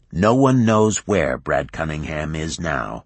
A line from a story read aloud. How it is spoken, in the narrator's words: Shin said flatly